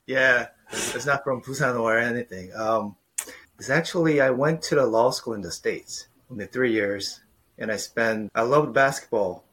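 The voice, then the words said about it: American-sounding English accent. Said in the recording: “there's also a specific accent that's coming through... It's definitely American.”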